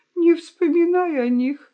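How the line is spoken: Sobbing sighing whisper. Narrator (Russian): шепчет, вздыхая и всхлипывая хитраска

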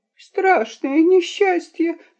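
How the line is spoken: Boy sobbing. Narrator (Russian): зарыдал мальчуган

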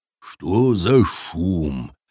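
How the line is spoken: Muttered. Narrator (Russian): пробормотал викинг

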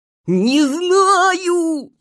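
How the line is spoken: Shouted reply. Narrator (Russian): закричал в ответ заяц

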